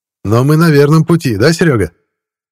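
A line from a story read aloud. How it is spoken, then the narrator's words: Shouted. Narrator (Russian): крикнул стоящий у мангала Ваня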